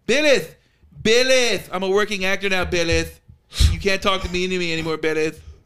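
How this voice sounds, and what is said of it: Imitates another person's voice. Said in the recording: “My Hollywood impression sucks, but my Pixar ... spot on.”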